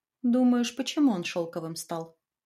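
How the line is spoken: Sighing. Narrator (Russian): Майя вздохнула

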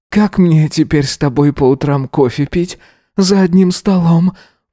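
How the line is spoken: Sighing. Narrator (Russian): Вздохнул

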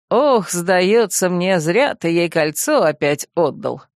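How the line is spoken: Wry snort. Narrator (Russian): хмыкнул Финист

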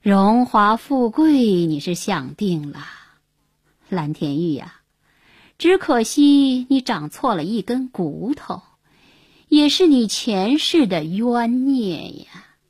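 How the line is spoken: Old woman sighing. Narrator (Chinese): 瞎子师娘，叹道

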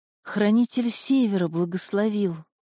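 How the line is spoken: Whisper. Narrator (Russian): прошептала

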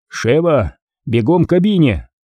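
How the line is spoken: Shouted. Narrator (Russian): крикнул Редфилд

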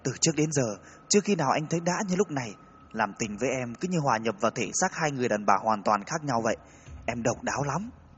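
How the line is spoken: Breathless. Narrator (Vietnamese): nói trong tiếng thở gấp

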